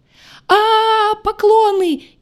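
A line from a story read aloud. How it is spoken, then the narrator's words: Shrill shriek. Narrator (Russian): взвизгнул Дорн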